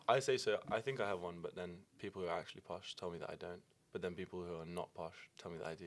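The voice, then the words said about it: British accent. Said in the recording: “You have a very British accent.”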